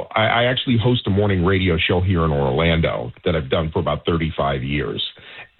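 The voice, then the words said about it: Big cultivated professional radio voice. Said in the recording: “you sound like you have a radio voice. I mean, definitely a cultivated radio, big radio voice ... you have a professional radio voice.”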